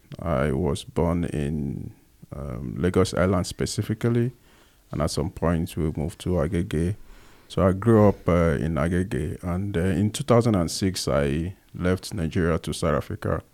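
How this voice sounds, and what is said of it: Nigerian accent. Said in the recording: “some of you might have picked from my accent that I am a Nigerian”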